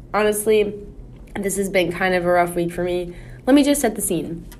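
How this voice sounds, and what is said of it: Tired, weary voice. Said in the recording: “I am exhausted... I guess maybe you could tell from my voice... I am so tired.”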